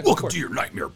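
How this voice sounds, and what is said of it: Imitates a cartoon character's voice. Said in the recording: “my Scary Terry impression”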